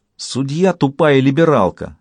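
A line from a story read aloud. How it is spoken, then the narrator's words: Exclaimed. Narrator (Russian): воскликнула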